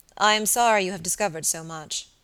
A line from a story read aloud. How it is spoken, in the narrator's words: he replied